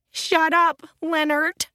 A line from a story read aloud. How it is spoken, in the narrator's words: Aunt Elena sobbed